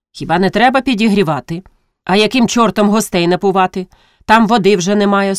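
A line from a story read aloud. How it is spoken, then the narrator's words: Stern retort. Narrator (Ukrainian): суворо отказала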